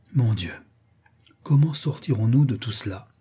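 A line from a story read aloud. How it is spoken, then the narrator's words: Murmur. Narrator (French): murmura la comtesse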